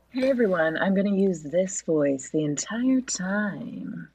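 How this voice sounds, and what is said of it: Sultry NPR-host style voice. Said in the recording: “Sexy ... like an NPR lady”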